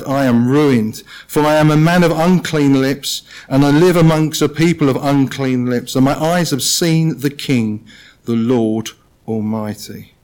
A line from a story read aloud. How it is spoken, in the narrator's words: cried